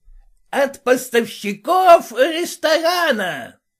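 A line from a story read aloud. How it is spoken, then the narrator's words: Shouted. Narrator (Russian): Хаперский и закричал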